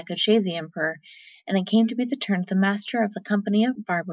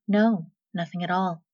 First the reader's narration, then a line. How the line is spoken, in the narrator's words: The young man replied calmly